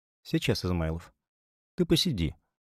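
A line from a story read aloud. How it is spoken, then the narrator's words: Barely audible mutter. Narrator (Russian): пробормотала Таисия Федоровна еле слышно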